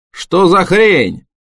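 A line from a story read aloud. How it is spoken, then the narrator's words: Yelling. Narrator (Russian): Джим заорал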